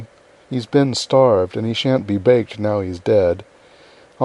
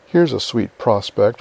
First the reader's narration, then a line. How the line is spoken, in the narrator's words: muttered Joe